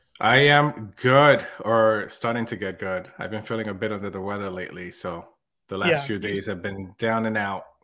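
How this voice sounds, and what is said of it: Unwell, rough-sounding voice. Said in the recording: “You sound terrible.”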